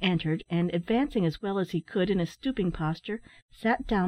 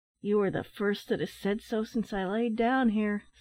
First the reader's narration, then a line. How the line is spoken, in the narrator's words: sighed the man